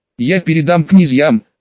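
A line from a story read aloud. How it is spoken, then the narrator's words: Strained, forced out. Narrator (Russian): наконец после почти минутного молчания сумел выдавить из себя Махсаджан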